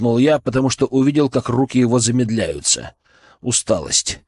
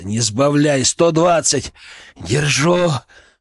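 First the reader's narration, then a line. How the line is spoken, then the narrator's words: Breathed through clenched teeth. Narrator (Russian): выдохнул Семен сквозь стиснутые зубы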